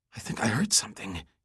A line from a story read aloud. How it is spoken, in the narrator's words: he said, this time in a whisper